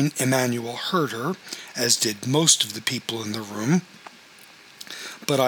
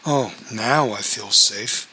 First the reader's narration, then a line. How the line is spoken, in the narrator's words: muttered sarcastically